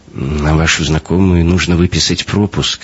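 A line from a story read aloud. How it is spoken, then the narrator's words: Uncertain guard. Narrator (Russian): неуверенно проговорил охранник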